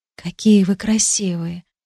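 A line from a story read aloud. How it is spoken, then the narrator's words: Quiet, tender. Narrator (Russian): тихо сказала я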